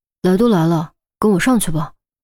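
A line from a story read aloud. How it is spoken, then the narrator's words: Sighing, gentle and slow. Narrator (Chinese): 严峰也觉得自己语气似乎有点重了，叹了口气，缓声道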